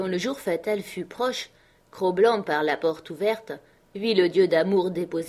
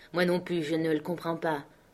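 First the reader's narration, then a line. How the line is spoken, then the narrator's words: Sad. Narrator (French): dit Scott tristement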